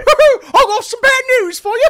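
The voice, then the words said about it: Tigger-style Wade Barrett, happy English voice. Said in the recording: “Do Tigger doing an impression of Wade Barrett ... It just sounded like a happy English boy ... that was just more so like a newsie or something”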